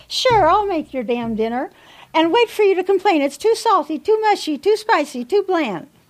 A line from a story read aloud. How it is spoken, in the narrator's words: muttering to herself